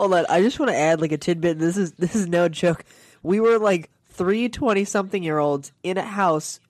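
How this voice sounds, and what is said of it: Usual voice. Nothing is said of it.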